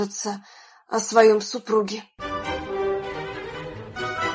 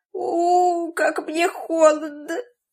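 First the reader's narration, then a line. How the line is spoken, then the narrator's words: Old woman's soft moaning. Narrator (Russian): старушоночку, которая потихоньку стонала и повторяла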